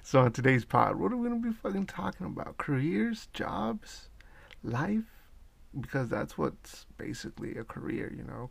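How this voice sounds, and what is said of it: Crunchy, rough early-morning voice. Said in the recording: “my voice is pretty crunchy right now”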